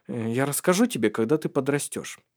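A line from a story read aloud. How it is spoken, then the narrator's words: Mumble. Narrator (Russian): пробормотал Таральд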